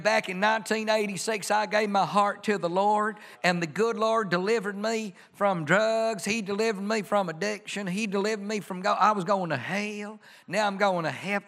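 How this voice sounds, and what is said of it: Put-on Southern Bible Belt accent. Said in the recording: “I don't know why I do a Southern accent with that, but it's kind of, you know, the Bible Belt kind of thing”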